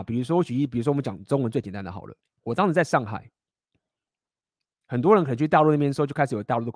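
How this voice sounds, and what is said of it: Taiwanese-accented Mandarin. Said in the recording (Chinese): “我从头到尾都没有换，我就是用这些台湾口音”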